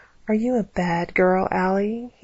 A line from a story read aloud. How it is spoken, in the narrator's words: he whispered mockingly